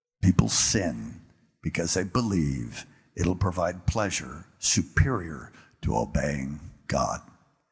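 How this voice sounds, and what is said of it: Deep booming God voice. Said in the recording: “in my deep God voice”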